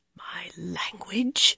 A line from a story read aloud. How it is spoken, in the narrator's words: Brigitte murmured dangerously